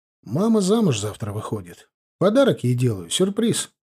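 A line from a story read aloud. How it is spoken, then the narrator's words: Calm explanation. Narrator (Russian): спокойно объяснил ему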